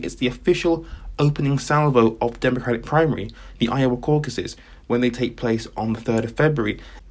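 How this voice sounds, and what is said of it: Excited, energetic speaking voice. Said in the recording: “I don't know if you can tell by my voice, but this is very exciting.”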